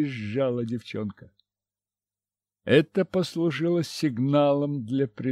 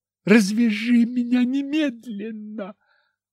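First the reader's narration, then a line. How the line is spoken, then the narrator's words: Shrieking. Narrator (Russian): опять завизжала она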